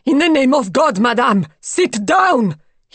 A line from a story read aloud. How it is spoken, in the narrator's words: he shouted